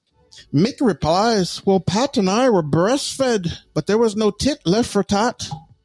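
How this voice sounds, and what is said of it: Put-on Irish accent. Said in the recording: “That was my Irish accent.”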